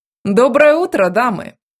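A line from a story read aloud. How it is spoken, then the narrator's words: Loud announcement. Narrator (Russian): возвестил громко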